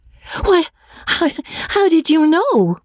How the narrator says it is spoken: cried Magnolia, amazed

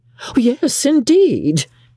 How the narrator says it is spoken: cried Mrs

